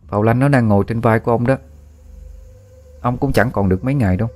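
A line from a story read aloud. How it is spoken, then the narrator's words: Cold speech. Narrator (Vietnamese): A Phong lạnh lùng bảo với ông ta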